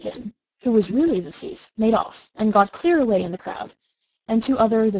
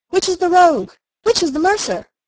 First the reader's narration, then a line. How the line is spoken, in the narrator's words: they cried out as they went